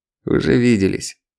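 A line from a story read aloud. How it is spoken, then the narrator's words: Cold, curt old man. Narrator (Russian): холодно обронил старик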